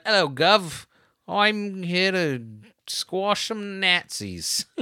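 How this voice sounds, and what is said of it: Put-on British accent. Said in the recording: “She is from Britannia ... that accent. She's not from Brooklyn.”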